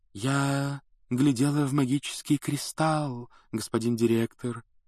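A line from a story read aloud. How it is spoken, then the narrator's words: Mystical otherworldly voice. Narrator (Russian): ответила Трелони мистическим потусторонним голосом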